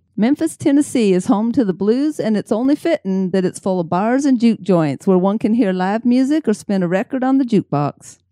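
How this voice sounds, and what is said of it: Attempted Southern US accent. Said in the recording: “that sounds like somebody from Kentucky ... I can't even do my own accent ... when I try to do somebody else's accent”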